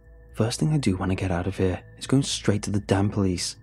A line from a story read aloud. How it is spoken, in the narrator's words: I growled